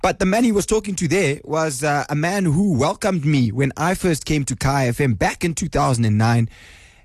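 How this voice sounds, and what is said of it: Congested voice from a cold. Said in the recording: “I've got a cold. ... now I've got a flu.”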